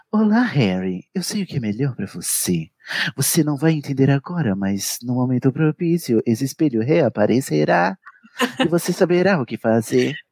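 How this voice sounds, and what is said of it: Dramatic TV narrator voice. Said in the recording (Portuguese): “que nem aquele narrador da série You ... tem que fazer a voz de, de dublador ... a voz do dublador não é a do Yu”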